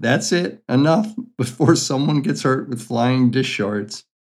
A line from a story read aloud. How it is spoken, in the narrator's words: Mabel cracked up laughing and said